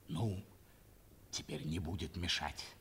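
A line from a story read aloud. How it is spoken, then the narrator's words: Hurried whisper. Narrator (Russian): прибавил торопливо еще шепотом гарнизонный офицер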